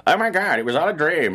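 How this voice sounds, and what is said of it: Imitates a movie character's voice. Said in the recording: “in that voice, by the way, uh, which is my best Rey impression.”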